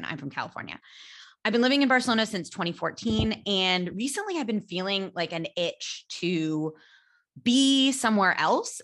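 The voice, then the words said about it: American accent. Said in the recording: “you sound American. Yes, I am American.”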